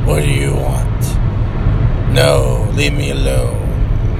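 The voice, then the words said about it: Very low, strong character voice. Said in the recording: “talks like he wants to be Batman ... he's just real, real low, strong talking”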